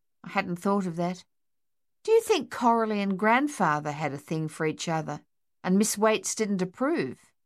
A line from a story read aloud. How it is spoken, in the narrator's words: George laughed